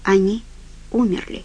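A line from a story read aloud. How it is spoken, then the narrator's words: Quiet. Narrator (Russian): сказал Ральф тихо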